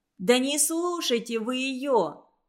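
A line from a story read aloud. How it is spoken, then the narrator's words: Shouting. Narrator (Russian): крикнула Хия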